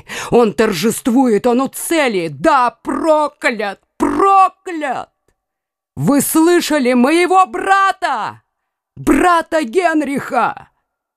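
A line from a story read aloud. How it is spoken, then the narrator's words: Shouted. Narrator (Russian): крикнул ей Карл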